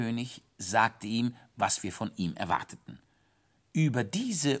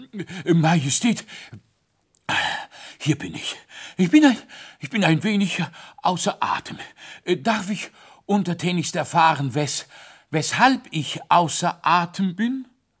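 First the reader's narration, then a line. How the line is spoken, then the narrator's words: Panting, out of breath. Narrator (German): keuchte er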